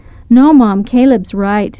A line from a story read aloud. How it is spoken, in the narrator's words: Angela sighed sadly